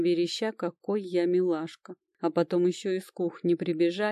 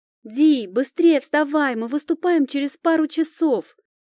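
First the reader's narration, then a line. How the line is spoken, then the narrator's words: Nearly shouting. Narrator (Russian): Чуть ли не кричал этот ураган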